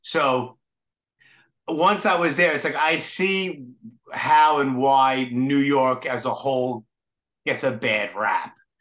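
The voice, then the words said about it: Heavy Brooklyn accent. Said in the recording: “I'm from Brooklyn and I have a heavy Brooklyn accent.”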